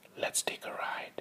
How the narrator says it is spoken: whisper in her ear

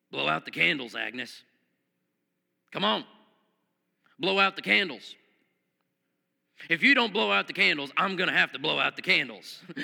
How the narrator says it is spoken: Harry gruffly mumbled

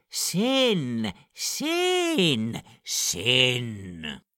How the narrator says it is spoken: bellows

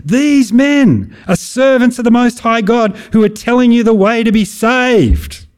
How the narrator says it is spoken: shouting

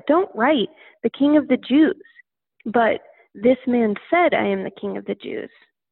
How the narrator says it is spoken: Pilate answered

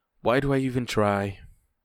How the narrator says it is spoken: She breathed in with a mouth half full and said

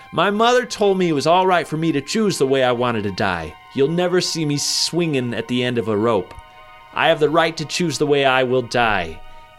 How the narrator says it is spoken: shouted

